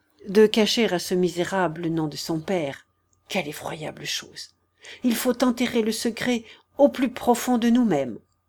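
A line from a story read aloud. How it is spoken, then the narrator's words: Murmured. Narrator (French): murmura Mathieu, qui songeait à Constance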